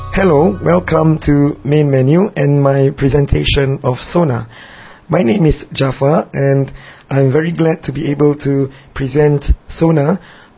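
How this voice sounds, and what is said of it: Singaporean English accent. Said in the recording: “my accent is a little queer ... I'm not from England or from America or Australia ... I'm from this little tiny island country called Singapore”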